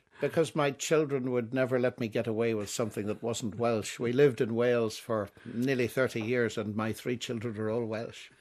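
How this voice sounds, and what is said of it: Irish accent. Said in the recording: “Your accent, though, tells me you're Irish.”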